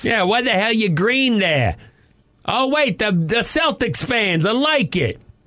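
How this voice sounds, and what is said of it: Put-on Boston accent. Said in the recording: “That's a Boston guy. ... my Boston guy accent”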